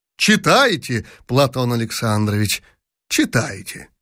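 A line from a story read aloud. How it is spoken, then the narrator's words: Plain. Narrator (Russian): сказал император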